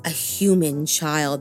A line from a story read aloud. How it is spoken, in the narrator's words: the kappa rasped